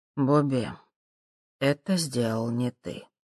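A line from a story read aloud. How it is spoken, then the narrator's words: Quiet. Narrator (Russian): тихо сказал он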